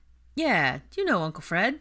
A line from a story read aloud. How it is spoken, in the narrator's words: Ginny said brightly